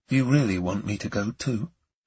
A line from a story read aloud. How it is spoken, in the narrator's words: I asked softly